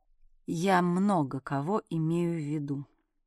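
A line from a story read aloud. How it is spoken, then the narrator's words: Answered very quietly. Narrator (Russian): ответил Кныш совсем тихо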